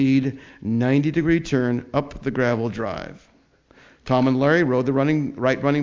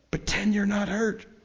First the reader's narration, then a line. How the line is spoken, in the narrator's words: they pleaded in loud whispers